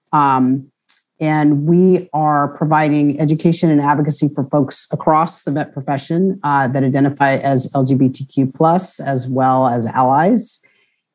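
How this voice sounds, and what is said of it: Hoarse, worn-out voice. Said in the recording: “I'm losing my voice. I've been doing a couple of presentations today”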